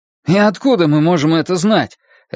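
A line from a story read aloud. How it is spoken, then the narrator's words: Snapped sharply. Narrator (Russian): резко бросил Гарольд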